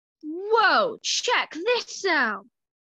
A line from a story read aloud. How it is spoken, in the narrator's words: Lucy shouted from the landing above